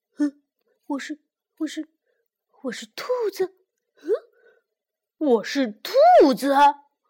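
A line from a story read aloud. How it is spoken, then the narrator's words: Startled stammering. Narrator (Chinese): 兔子，达利比非常的吃惊，他结结巴巴的说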